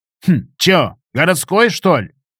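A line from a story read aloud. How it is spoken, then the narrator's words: Skeptical grunt. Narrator (Russian): Гена хмыкнул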